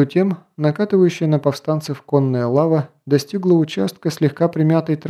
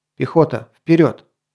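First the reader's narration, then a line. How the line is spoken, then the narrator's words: Sharp command. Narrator (Russian): резко приказал герцог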